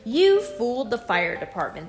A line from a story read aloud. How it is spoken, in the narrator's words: they said